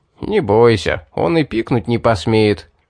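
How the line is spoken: Laughing speech. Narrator (Russian): засмеялся Эдгар

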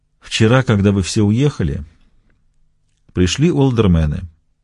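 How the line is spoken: Even-voiced reply. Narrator (Russian): ровным голосом отвечал Костельно

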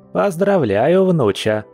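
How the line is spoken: Grandmother's chuckle. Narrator (Russian): хохотнула бабуля

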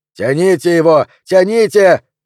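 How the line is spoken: Shouting behind bulletproof glass. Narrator (Russian): кричал Трейн из-за пули непробиваемого стекла кабины

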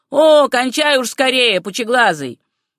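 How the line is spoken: Heckler's interrupting shout. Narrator (Russian): кто-то в середине его монолога крикнул

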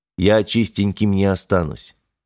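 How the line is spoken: Sigh. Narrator (Russian): вздохнул Корбит

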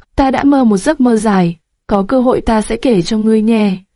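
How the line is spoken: Trembling, smiling. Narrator (Vietnamese): Hắn run rẩy, mỉm cười nói

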